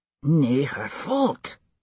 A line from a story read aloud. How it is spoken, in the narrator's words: he muttered under his breath